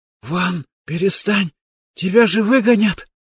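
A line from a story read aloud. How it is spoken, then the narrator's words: Whispering while exercising. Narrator (Russian): прошептал отжимающийся Ян Нензу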